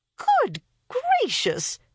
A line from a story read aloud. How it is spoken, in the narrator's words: cried Mrs